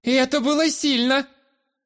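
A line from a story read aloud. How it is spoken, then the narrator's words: Woman's voice shouting. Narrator (Russian): Выкрикнул чей-то женский голос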